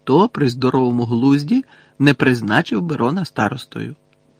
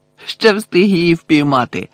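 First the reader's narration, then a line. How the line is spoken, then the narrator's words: Joyful. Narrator (Ukrainian): радісно повідомив Рон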